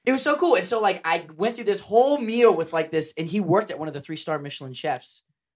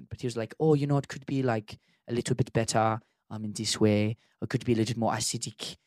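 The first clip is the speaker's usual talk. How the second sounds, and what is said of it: Imitated Swiss accent. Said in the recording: “He was from Switzerland, and I'm probably going to butcher his accent.”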